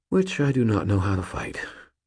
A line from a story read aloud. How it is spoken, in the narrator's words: I breathed quietly